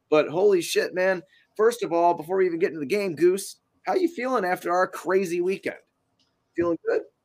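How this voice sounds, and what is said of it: Hoarse, partly lost voice. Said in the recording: “My voice is still a little bit gone from uh, Friday and Saturday's festivities”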